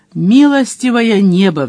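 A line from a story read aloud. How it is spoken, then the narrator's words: Pleading. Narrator (Russian): взмолился Мадж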